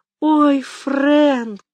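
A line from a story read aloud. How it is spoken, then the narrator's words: Sobbing. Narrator (Russian): всхлипнула Мэгги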